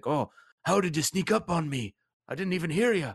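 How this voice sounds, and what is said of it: Bad put-on accent. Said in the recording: “Oh, that was a bad accent.”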